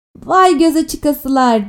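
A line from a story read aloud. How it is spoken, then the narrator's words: Woman shouting. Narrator (Turkish): diye bağırdı öteki kara çatkılı kadın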